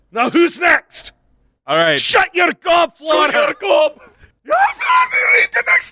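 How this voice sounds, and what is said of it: Put-on Scottish accent. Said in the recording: “greatest Scottish accents”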